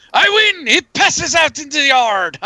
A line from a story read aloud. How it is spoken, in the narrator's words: triumphantly yell